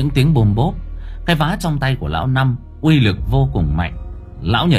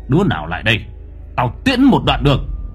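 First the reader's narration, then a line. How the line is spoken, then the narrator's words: Old man's harsh gritted voice. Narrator (Vietnamese): Lão Năm gằn giọng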